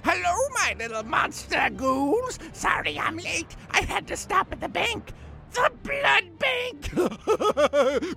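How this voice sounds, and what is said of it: Spooky skeleton puppet character voice. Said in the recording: “He's a little skeleton man who makes hilarious, spooky jokes. ... I do the voice.”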